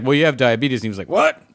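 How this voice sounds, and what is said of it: Impression of a quoted exchange. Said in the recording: “That's a good impression.”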